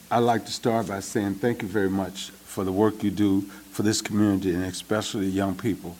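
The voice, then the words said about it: Southern Mississippi twang. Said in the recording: “my Mississippi twang”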